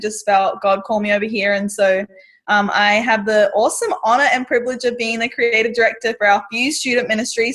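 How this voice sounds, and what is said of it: Australian accent. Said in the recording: “explain to us your accent. You're from Australia.”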